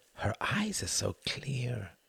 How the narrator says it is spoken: he whispered, unable to blink

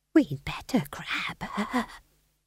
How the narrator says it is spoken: she whispered to Magrat

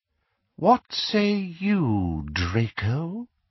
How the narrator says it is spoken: asked Voldemort, and though his voice was quiet, it carried clearly through the catcalls and jeers

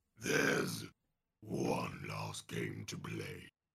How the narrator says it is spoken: Dare hisses

